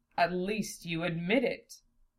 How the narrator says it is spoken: Zelos chuckled

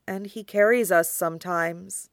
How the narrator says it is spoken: Gaara puts in quietly

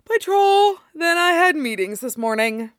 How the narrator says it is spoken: Tim replied, yawning

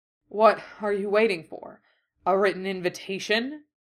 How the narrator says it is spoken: Dorian finally panted up from beneath him

